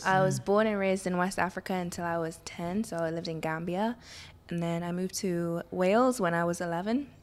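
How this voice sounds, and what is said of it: British-sounding accent. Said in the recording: “she has an accent ... she was there long enough to pick up a British accent”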